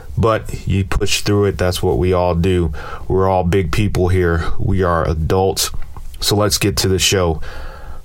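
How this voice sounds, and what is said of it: Congested, stuffy-nosed voice. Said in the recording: “I sound a little congested. ... a sinus cold ... I got a bunch of phlegm in my throat and in my nose.”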